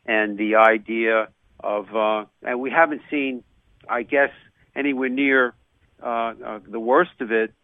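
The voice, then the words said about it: New York accent. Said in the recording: “you could hear my New York accent”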